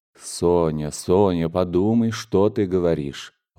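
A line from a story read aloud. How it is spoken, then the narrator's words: Tender. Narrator (Russian): ласково произнес он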